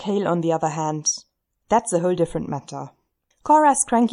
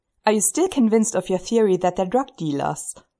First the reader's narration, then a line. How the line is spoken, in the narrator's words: Scott asks, and he sounds vaguely amused, like he's laughing about an inside joke